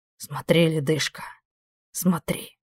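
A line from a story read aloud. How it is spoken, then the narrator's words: Whispered in ear. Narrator (Russian): Прошептал он ей на ухо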